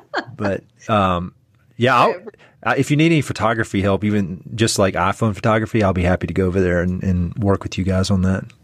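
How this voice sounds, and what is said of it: Eastern North Carolina accent. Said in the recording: “my Eastern North Carolina accent still has some Scottish in it”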